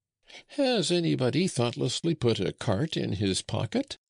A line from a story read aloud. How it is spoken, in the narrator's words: cried Francois